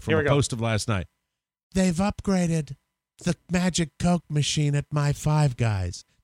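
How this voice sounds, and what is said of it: Impression of Rob Spiewak. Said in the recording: “my Rob Spiewak impression.”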